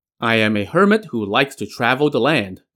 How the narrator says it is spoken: the Daoist replied

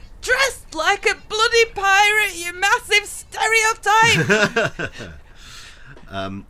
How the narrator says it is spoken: shouting

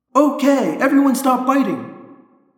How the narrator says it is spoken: I yelled

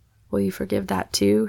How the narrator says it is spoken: he asked in a whisper

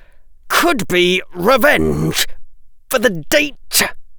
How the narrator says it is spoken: Draco didn't really feel like talking right now, but he managed to say, through gritted teeth

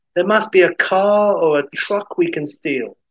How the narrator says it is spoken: Isabella, you know, shouts

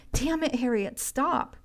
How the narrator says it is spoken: Samir shouted

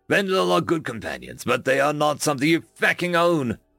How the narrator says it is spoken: my predator growled

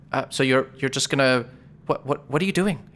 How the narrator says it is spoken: He whispers to Better Jax

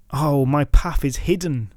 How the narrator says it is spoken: cried

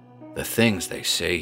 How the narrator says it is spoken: muttered

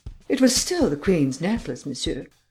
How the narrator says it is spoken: replied the Countess haughtily

